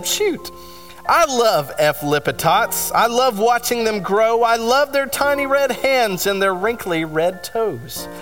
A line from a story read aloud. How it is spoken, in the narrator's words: everyone awed and said